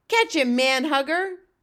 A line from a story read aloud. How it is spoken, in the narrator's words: shouted